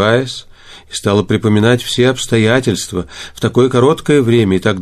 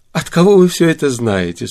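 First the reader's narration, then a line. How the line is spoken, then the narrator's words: Laughing question. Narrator (Russian): спросила она, смеясь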